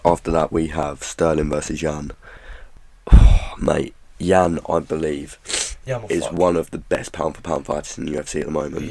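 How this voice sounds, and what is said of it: Weird, sick-sounding voice. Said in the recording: “I'm really fucking ill. That's why my voice is weird.”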